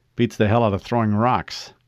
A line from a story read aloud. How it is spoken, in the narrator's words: he replied